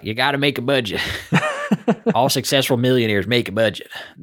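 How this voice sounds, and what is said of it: Imitates another person's voice. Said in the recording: “I could probably do better if I got into the flow state there, but that's my impression of Dave Ramsey”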